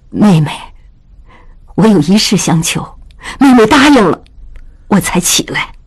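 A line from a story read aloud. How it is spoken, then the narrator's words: Trembling voice. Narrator (Chinese): 曹氏颤声道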